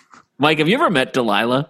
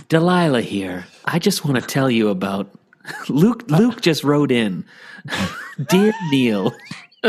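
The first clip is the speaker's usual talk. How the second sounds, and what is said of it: Bad impression of radio host Delilah. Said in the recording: “bad Delilah impression”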